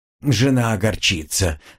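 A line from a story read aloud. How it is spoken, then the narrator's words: Aristocrat sighing. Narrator (Russian): вздохнул аристократ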